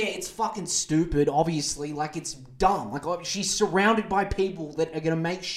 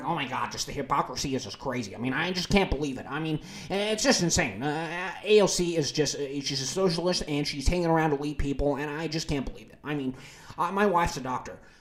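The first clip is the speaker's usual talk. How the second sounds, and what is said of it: Imitates another person's voice. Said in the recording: “Who do you think I'm impersonating there? ... Ben, get your fucking words out.”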